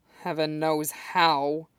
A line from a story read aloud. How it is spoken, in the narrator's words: Bruce grumbled darkly